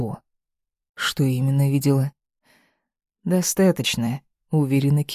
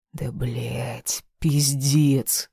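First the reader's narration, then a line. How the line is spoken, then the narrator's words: Growled. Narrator (Russian): зарычал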